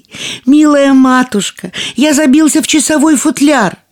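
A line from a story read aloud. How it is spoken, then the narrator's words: Thin little voice shouting. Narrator (Russian): тоненький голосок прокричал ей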